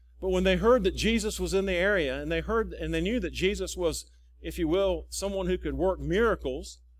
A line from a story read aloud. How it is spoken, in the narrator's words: they cried out